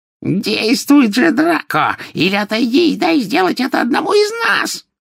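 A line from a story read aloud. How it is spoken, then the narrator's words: Shrill cry of a witch. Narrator (Russian): визгливо вскрикнула колдунья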